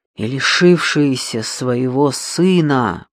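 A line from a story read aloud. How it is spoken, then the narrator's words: Hissing. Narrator (Russian): прошипела Джейми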